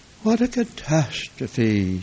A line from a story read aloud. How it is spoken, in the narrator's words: sighed Aunt Sarah sorrowfully